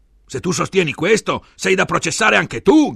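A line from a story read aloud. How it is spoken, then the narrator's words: Shouting in debate. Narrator (Italian): gridava Enrico al difensore durante il dibattito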